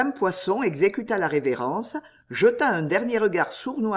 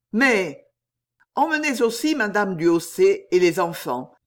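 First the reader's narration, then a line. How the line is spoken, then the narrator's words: Curt interruption. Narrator (French): interrompit Tournehem d'un ton bref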